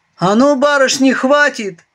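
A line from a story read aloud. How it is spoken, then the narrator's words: Barking shout. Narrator (Russian): рявкнул белый кроль Вишен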